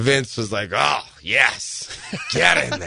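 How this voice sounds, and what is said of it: Bruce Prichard-style Vince impression. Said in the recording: “a good impersonation. That's really good. ... that's just me ripping off Pritchard. ... That's a good Bruce impersonation.”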